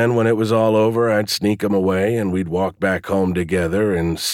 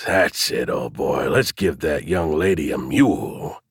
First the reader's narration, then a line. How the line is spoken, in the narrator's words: hiss